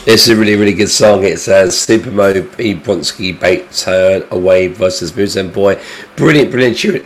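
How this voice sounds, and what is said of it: Congested, sore-throated voice. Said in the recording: “I sound dreadful. ... I've got a cold, I've got a sore throat”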